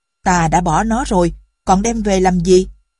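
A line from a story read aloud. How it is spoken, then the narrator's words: Angry father asking. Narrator (Vietnamese): Người cha giận dữ hỏi ông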